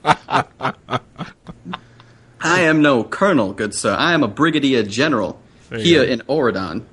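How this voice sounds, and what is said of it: Put-on Southern US accent, done well. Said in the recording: “all of a sudden he's southern ... that sounds like he's from Georgia. He's got a Georgian accent. ... He does a good job with that.”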